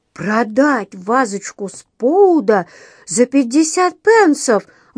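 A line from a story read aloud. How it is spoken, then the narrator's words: Incredulous exclamation. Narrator (Russian): воскликнул он, отказываясь верить своим ушам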